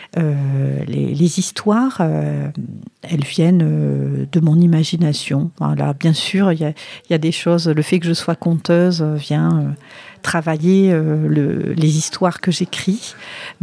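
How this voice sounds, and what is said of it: Light southwestern French accent. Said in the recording (French): “un petit accent... On entend un petit accent... je viens du sud-ouest. Hein, ce petit accent, je l'ai gardé... Il est très joli... l'accent est resté là”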